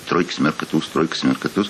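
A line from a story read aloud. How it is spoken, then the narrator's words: Muttering. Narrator (Russian): бормочет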